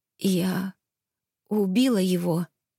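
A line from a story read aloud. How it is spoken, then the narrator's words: Trembling voice. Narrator (Russian): произнесла я дрожащим голосом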